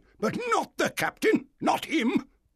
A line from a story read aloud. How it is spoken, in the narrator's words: said the squire angrily